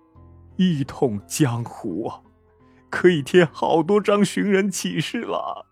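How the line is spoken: Hoarse, pained. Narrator (Chinese): 武林盟主强忍着剧痛，沙哑的对他说

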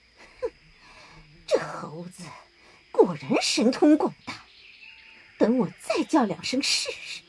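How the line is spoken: Through gritted teeth. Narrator (Chinese): 那妖精咬牙切齿的说

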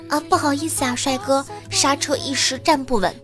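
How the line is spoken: Embarrassed shy whisper. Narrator (Chinese): 狗姐啊，心里有点尴尬，又有点害羞，就小声的说

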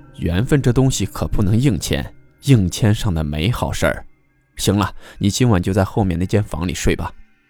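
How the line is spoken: Sighing. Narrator (Chinese): 姑娘叹了口气，就说

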